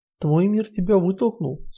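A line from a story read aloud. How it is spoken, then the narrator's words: Calm. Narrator (Russian): спокойно сказала Нотти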